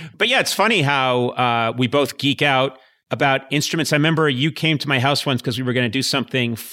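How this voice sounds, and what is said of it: Usual voice. Nothing is said of it.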